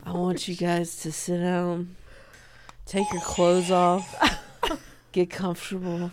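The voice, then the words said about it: Impression of friend as cult leader. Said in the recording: “will you do an impression of me as a cult leader? ... My here's what I see of your cult.”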